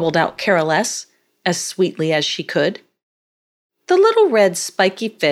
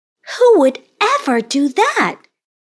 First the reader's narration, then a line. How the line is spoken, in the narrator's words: exclaimed Carolesse